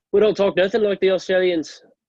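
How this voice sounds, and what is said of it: Put-on New Zealand accent. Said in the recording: “New Zealand... That was a pretty good accent.”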